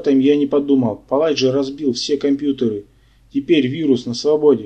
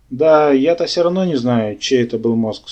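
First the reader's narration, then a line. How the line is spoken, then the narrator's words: Sighing professor. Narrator (Russian): снова вздохнул профессор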